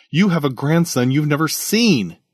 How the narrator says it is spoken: he exclaimed

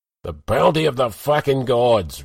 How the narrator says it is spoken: Rugar howled, dribbling mead into his grey beard

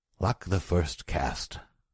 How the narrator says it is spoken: murmured Taurus

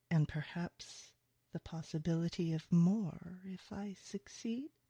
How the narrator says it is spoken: he purrs

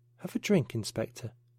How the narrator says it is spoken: she said quietly

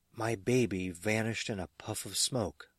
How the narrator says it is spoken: as the toddler's tearful, quavering-voiced mother put it

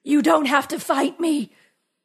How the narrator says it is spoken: said, gasping for breath

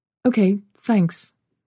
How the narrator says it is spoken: she said

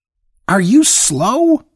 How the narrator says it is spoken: she screamed

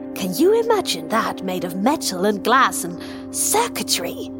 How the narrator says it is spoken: He almost spat the last word

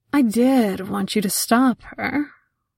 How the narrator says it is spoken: calmly replied

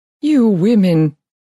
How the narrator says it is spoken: he continued, his voice plainly thrilling at my approach

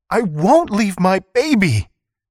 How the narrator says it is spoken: Kuikottle cried

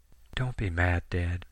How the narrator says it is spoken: Sammy whispered over the receiver

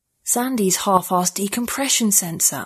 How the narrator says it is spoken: I whispered

